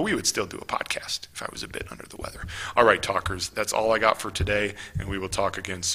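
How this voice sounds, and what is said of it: Usual voice. Nothing is said of it.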